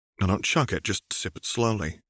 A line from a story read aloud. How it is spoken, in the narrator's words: she advised gently